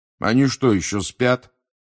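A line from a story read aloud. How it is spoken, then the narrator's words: Grumbled. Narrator (Russian): проворчал Фред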